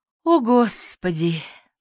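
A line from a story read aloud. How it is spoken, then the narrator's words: Exhaled exclamation. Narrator (Russian): выдохнула Дейдра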